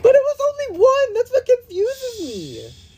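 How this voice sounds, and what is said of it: Really shrill voice. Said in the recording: “Your voice was just really shrill”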